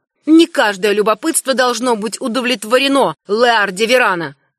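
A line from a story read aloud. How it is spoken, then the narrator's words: Curt, rather angry. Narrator (Russian): бросил ветренник довольно зло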